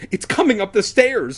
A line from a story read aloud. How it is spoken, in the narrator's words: I cried